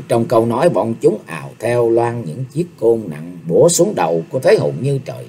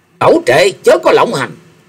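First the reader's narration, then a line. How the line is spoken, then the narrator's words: Loud shrill yelling. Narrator (Vietnamese): Mấy tên cao thủ của Dương Gia Trang thét lên inh ỏi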